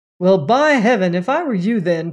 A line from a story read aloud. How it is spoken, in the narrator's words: cried Crane with unusual feeling